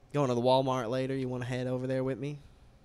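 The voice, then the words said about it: Put-on Texas accent. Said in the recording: “standard Texas accent”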